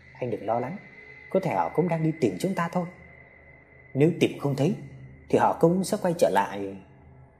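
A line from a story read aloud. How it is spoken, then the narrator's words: Father's soft comforting voice. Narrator (Vietnamese): Ba mình khẽ an ủi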